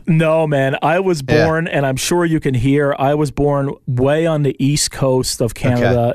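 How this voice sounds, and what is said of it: Newfoundland accent, Irish tinge. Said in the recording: “I can hear a tinge of the Irish accent ... a Canadian accent that wasn't sort of stereotypical”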